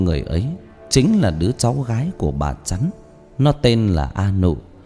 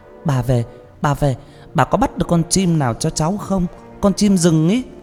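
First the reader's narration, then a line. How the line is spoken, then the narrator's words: Excited child's cry. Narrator (Vietnamese): một cái thân người nhỏ thó reo lên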